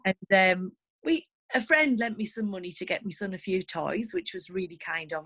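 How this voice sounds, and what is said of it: Northern English accent. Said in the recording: “As you can probably tell by my accent, I live in the north of England.”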